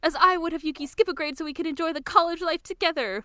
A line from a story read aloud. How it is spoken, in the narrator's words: Motoko screams